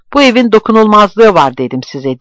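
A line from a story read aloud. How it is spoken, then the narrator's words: Angry shout. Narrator (Turkish): diye bağırdı öfkeyle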